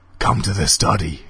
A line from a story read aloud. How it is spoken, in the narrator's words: hissed the voice